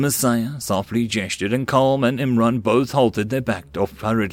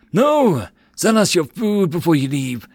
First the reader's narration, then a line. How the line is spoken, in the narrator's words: the merchant cried out